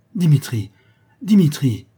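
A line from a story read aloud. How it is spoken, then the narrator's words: Trembling exclamation. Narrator (French): s'écria mademoiselle Bochet tremblante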